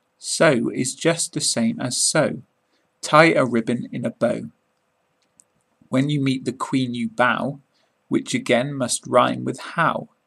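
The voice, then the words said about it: British accent. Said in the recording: “read in a British accent”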